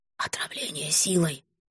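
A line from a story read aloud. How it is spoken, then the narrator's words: Whisper. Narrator (Russian): шепнул Гарард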